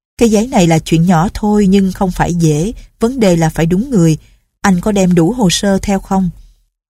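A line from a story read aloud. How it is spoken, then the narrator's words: Smiling. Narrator (Vietnamese): bà mỉm cười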